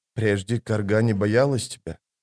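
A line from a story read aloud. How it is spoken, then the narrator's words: Mumbled. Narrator (Russian): пробормотала женщина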